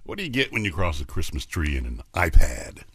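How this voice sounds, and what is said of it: Deep sexy man's voice. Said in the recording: “sexy man with a deep voice”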